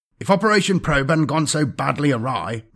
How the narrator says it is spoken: Vorch said in a vexed tone

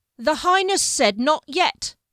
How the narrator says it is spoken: Giles yelled, Con fighting him

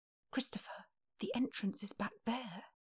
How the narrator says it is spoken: Confused, whispered

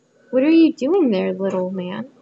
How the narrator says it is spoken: asked Rose Red

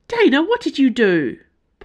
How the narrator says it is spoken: Porthos yelped

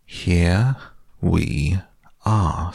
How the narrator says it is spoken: said Rabbit, very slowly and carefully

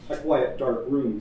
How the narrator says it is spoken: said Dinella

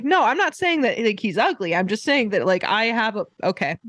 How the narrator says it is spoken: the girl starts yelling at him

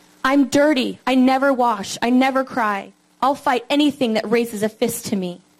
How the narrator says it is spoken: shouted

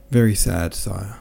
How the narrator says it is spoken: replied Michaud, with a sigh

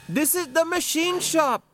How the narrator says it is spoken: Gaz just about had to shout to be heard

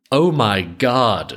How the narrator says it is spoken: she cried out

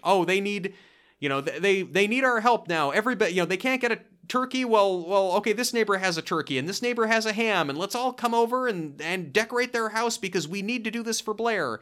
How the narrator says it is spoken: the Croyd yells to the assembled neighborhood

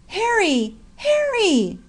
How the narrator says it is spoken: cried Ryan

